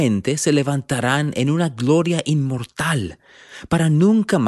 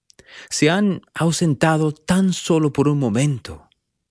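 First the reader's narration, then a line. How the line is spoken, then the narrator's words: Plain. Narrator (Spanish): dijo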